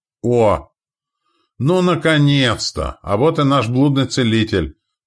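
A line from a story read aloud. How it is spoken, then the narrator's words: Shouted. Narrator (Russian): прокричал Стоян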